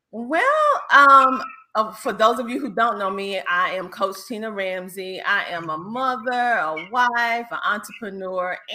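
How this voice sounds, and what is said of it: Southern US accent with twang. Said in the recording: “I know you hear the Southern twang ... I have that type of lingo where some of my words go all the way around the corner and back again ... I am a Southern Belle through and through”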